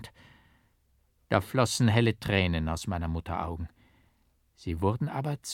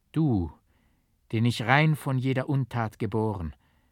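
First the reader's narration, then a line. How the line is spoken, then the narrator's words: Mother's gentle voice. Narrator (German): sprach meine Mutter mit sanfter Stimme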